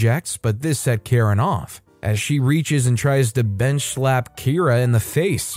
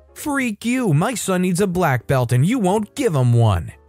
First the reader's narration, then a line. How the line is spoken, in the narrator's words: screams at me